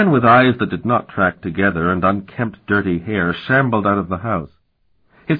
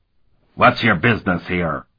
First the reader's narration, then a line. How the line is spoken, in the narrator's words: he asked in an unfriendly tone